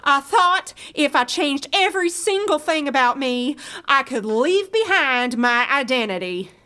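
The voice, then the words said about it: Affected put-on accent. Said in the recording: “Oh God, there's that accent again. ... Drop the accent. For good.”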